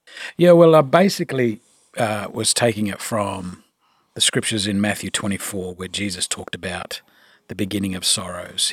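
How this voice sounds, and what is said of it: Noticeable non-American accent. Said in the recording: “It goes better with your accent there ... I still have that accent”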